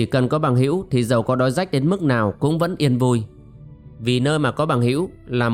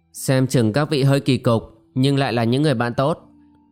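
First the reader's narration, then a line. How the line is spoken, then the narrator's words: Sighing. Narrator (Vietnamese): thở dài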